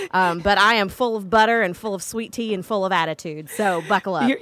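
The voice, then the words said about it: Thick Southern accent. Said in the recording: “Your accent is so thick now. ... It's very thick.”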